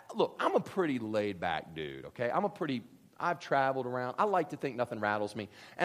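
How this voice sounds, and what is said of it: Usual voice. Nothing is said of it.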